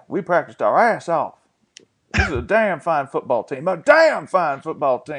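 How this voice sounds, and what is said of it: Texan Art Briles impression. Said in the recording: “I like the McConaughey peeking through in your Briles ... inside every Texan accent, there's just a McConaughey like creeping out. It's not quite hostile enough for Briles. You have to be a little louder with Briles”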